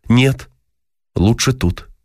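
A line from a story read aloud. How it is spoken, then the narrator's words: Plain. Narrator (Russian): ответил ей Дима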